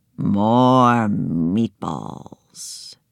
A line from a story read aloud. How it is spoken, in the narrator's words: he said sleepily